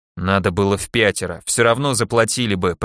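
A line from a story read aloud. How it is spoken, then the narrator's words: Continued grumbling. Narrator (Russian): продолжал ворчать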